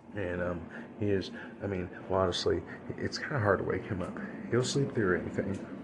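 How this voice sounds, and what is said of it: Quiet, near-whispered voice. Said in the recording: “if it may sound like I'm whispering a little bit, well, that is because I'm trying not to wake my son up ... I am trying to be a little quiet”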